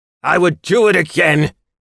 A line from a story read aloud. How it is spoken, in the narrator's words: he roared back at my mate